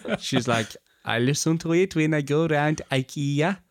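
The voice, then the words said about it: Bad put-on Swedish accent. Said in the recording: “That's a bad accent. ... That is a very bad accent.”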